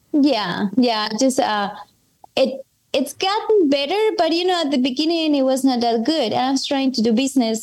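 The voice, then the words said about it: Strong non-native English accent. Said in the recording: “my accent is still pretty strong... it's normal to have an accent when it's not your first language”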